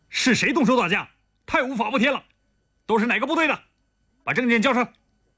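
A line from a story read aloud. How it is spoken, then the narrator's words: Stern officer questioning. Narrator (Chinese): 一个配少校军衔的军官，厉声问道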